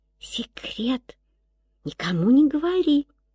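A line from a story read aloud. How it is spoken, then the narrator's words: Little girl whispering. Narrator (Russian): девочка шепнула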